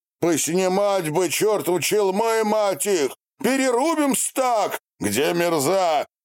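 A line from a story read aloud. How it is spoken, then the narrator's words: Shouting. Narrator (Russian): крикнул Степан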